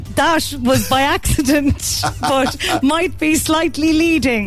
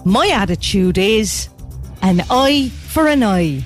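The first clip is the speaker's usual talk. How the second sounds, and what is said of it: Cork Irish accent impression. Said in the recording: “You're doing this in Roy's accent ... A Cork accent just bursting out of me”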